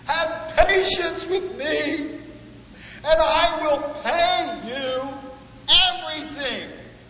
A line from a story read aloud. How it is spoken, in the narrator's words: that employee fell to his knees and bowed down, pleading